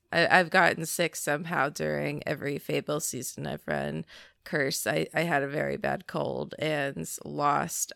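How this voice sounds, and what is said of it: Sick, rough-sounding voice. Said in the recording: “my voice sounds kind of bad right now. I have bronchitis.”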